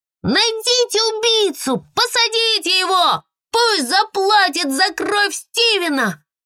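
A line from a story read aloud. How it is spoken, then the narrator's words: Shouting over the wind. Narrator (Russian): кричала вместе с ветром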